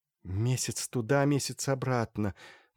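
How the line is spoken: Sighing. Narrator (Russian): вздохнула Полина

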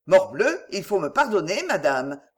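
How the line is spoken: Cold protest. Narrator (French): protesta-t-il froidement

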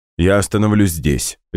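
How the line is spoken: Decisive. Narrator (Russian): решительно сказал Слава, потому что Люсинду резко замутило

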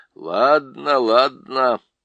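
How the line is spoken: Grumbling. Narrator (Russian): проворчал Лум

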